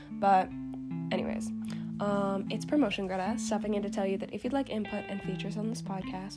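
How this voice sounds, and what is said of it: Strained, partly lost voice. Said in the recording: “my voice is kind of gone ... my voice has been gone for like 2 weeks now”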